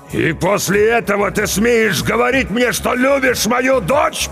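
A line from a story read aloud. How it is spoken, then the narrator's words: Furious roar. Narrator (Russian): побагровев взревел Ругу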